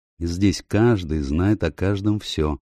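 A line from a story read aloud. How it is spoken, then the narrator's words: Dry reply. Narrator (Russian): сухо ответила Рэйчел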